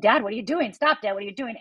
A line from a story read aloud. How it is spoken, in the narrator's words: I start yelling